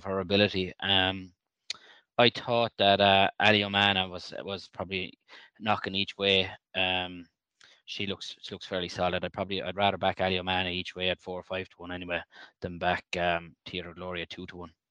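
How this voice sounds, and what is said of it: Irish accent, County Clare. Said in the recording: “Irish accents ... You have a lovely accent. ... from County Clare?”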